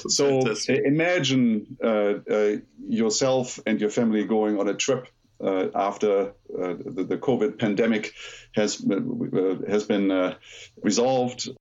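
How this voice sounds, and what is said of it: Soothing German accent. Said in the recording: “listen to the soothing German accent”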